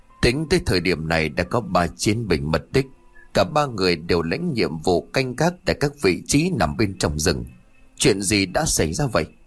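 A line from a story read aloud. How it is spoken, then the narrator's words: Stern gritted voice. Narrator (Vietnamese): Li An liền gằn giọng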